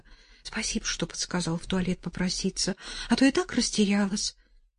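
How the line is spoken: Muttered. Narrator (Russian): Настя благодарно пробормотала

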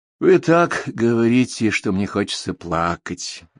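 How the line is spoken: Sad. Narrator (Russian): грустно заметил Поль

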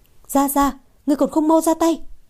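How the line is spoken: Immediate shout. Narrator (Vietnamese): Nàng lập tức hét lên

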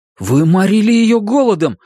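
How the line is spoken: Exclaimed, trembling voice. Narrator (Russian): воскликнул Кориолан дрогнувшим голосом

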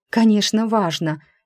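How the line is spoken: Startled, frightened. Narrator (Russian): испуганно встрепенулась я

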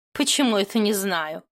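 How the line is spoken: Snorting. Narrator (Russian): фыркнула Матильда

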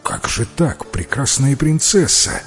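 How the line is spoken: Hypocritical exclamation. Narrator (Russian): воскликнул тогда лицемерный принц

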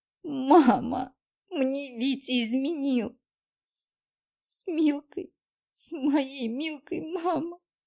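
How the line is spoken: Bursting into sobs. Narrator (Russian): Разрыдалась я

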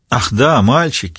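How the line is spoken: Laughing. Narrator (Russian): Риццоли рассмеялась

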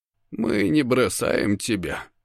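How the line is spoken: Tired. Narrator (Russian): говорит Дункан устало

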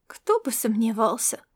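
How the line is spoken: Ironic remark. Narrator (Russian): иронично заметила Мариан и чуть слышно вздохнула

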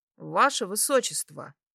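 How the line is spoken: Carefully neutral voice. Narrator (Russian): Обратилась к нему как можно более нейтральным голосом

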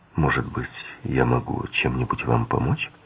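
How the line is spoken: Quiet, concerned question. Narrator (Russian): увидев ее бледное, озабоченное лицо, он тихо спросил

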